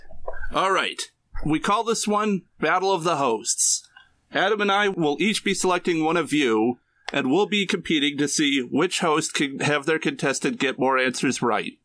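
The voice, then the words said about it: Exaggerated game show host voice. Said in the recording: “I'm super excited about your game show voice. ... It's fantastic.”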